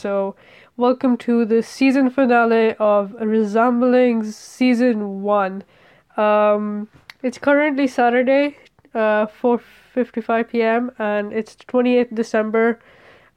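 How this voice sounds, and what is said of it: Congested voice with a cold. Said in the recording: “I have a cold, so I sound terrible,”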